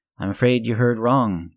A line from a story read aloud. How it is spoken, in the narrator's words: I said